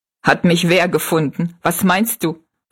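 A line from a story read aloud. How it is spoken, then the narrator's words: Laughing question. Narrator (German): fragte Jinx lachend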